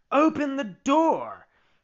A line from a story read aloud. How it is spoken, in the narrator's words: cried Geppetto from the street